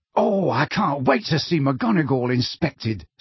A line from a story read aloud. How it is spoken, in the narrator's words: said Ron happily